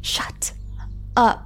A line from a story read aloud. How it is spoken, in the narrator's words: Marilyn hissed